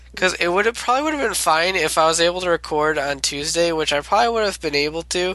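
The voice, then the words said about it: Worn-out, failing sick voice. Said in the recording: “my voice is going ... I can't talk anymore ... get sick again”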